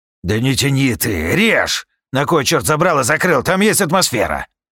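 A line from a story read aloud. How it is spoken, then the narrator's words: Impatient bark. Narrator (Russian): Рявкнул Шарк, приплясывая от нетерпения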